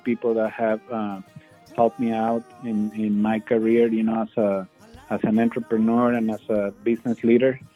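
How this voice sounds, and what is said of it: Strong Mexican Spanish accent in English. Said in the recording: “you can hear I still have a very strong English accent”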